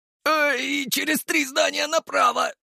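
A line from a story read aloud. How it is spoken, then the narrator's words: Squeak. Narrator (Russian): пискнул он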